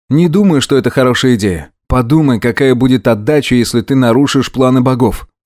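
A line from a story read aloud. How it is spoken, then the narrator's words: Calm objection. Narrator (Russian): спокойно возразил я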